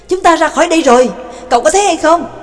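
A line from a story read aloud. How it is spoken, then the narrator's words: Excited shout. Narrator (Vietnamese): Trương Lập hưng phấn hét lên với Nhạc Dương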